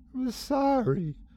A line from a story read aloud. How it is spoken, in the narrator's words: she sobbed